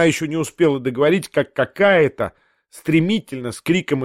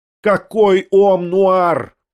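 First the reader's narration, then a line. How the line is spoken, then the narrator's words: Shouting. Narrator (Russian): прокричала Татьяна Павловна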